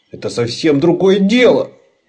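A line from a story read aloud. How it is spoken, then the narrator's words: Wail. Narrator (Russian): взвыл Лабан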